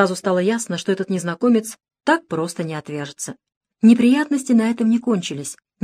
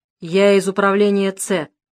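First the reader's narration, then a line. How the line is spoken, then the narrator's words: Gloomy. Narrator (Russian): мрачно сообщил незнакомец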